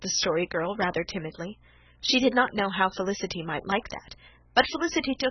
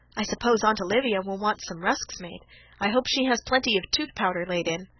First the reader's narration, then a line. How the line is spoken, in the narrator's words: said Dan